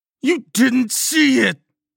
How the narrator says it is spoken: Carter screamed

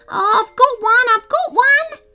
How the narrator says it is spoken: the excited quokka was shouting

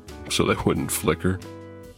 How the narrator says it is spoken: I chuckled to myself

